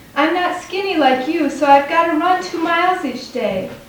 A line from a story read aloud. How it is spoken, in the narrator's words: I shout